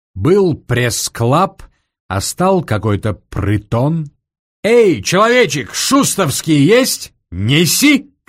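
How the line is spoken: Shouting. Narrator (Russian): крикнул гусар

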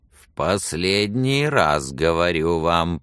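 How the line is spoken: Creaking through teeth. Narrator (Russian): проскрипел он сквозь зубы

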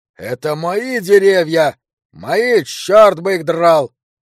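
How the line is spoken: Yelled. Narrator (Russian): орал Санта

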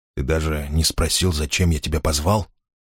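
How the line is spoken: Quiet. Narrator (Russian): сказал он тихо

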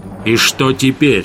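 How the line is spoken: Barked. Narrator (Russian): рявкнул Гессер

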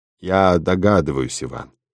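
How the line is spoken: Soft, doctor's voice. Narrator (Russian): мягко проговорил доктор

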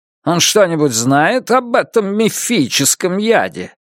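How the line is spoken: Slightly mocking. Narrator (Russian): Лун слегка насмешливо ответил

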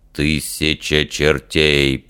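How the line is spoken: Grumbling. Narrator (Russian): пробурчал Фример

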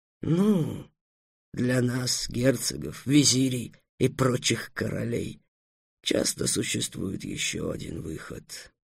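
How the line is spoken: Conspiratorial whisper. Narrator (Russian): заговорческим шепотом сказал визирь

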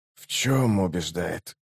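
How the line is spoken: Ominous question. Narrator (Russian): зловещим тоном спросил убийца

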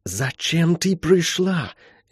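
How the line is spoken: Furious breathy whisper. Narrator (Russian): яростным шепотом выдохнула Молли на своем лучшем языке рускис

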